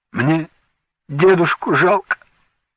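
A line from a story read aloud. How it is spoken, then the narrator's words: Sobbing. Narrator (Russian): всхлипнул Венька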